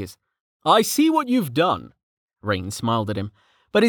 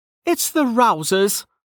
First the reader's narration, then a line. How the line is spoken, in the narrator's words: she said loudly, cutting through the chatter